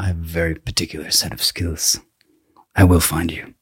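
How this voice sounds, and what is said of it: Very low voice, Irish accent. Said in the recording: “Talks very low like this. He's got a strange accent. ... I think he's Irish.”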